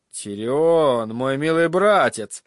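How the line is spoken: Grim. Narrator (Russian): заметил он мрачно

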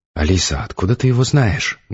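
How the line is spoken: Loud whisper. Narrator (Russian): громко зашептала Олечка

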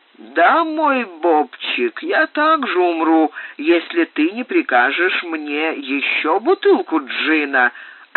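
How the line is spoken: Plain. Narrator (Russian): ответила Темперэнса

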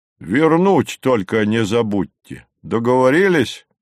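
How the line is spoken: Displeased bass. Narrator (Russian): недовольно пробасил Горький

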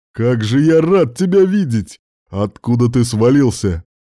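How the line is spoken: Deep bass voice. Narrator (Russian): пробасил тот

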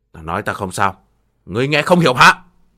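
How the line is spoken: Loud angry scolding. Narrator (Vietnamese): Thiên Bồng cất cao giọng quát mắng

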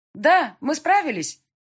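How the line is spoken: Loud answer. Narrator (Russian): ответила я громко

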